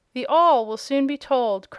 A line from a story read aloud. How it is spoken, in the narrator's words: cried Tom hastily, and with affected unconcern